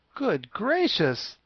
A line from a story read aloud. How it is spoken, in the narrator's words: the Scarecrow exclaimed at hearing this